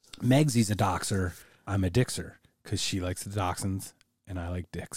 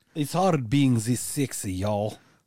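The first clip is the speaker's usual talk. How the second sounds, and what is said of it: Put-on American cowboy accent. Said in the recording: “I try my American... my cowboy accent.”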